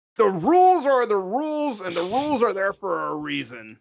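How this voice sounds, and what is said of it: Grumpy old man voice. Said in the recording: “Can you do this in an accent? Can you come at this like as a grumpy old sea dog or something? ... just be a grumpy old man”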